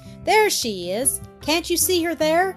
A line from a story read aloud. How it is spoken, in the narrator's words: exclaimed Barbara